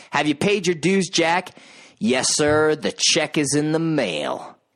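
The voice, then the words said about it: Kurt Russell impression as Jack Burton. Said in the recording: “a pretty good impression of Kurt Russell's performance”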